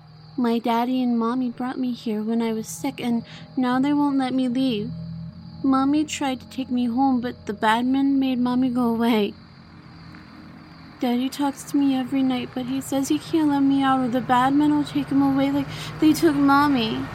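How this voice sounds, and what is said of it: Small child's voice, rising anger. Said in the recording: “sounding less like a little boy as the anger began to rise in his small voice”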